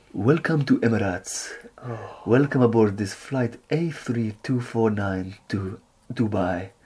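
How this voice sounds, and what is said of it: Put-on Arabic accent, announcer voice. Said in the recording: “your Arabic again? That's slightly arousing ... I learnt that accent from doing going on Emirates flights ... it's the most beautiful sounding. This guy's got this beautiful voice, comes over the tannoy”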